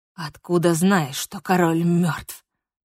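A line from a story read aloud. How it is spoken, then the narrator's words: Hiss. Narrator (Russian): прошипел он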